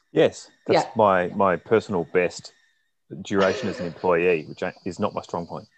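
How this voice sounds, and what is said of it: Australian accent. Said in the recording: “haven't picked up on his accent, ... is based in Melbourne in Australia”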